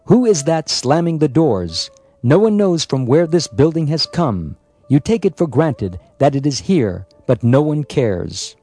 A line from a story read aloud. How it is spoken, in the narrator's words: Prabhupada came out of his room and called out